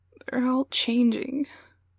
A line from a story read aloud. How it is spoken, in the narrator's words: moan